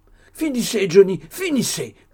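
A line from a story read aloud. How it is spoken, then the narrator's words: Moved, pained shout. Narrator (French): cria son ami, non moins touché de cet effort d'imagination douloureux de la part de M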